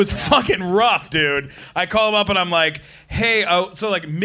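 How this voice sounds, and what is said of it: Usual voice. Nothing is said of it.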